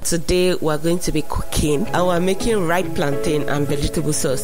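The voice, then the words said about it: African accent. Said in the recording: “You hear an African accent”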